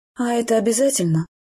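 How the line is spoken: Grumbled under breath, sighing. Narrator (Russian): Буркнула я себе под нос и вздохнула

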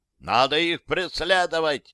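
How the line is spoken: Yelling. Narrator (Russian): заорал лейтенант

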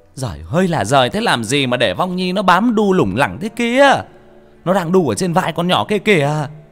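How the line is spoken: Shrieking woman. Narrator (Vietnamese): bà ấy rít lên

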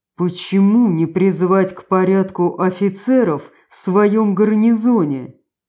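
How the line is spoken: Through gritted teeth. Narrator (Russian): процедил Штаден-старший

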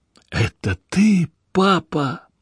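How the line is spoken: Quiet trembling question. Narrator (Russian): Тихим, дрожащим голосом она спросила

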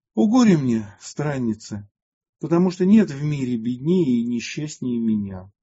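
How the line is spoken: Heavy sigh, tearful. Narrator (Russian): Тяжко вздохнув, Матфидия прослезилась и сказала

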